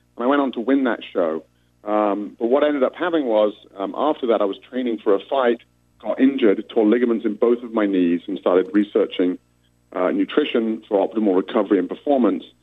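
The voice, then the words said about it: British accent. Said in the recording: “I represented the UK, of course, as you can tell from my accent.”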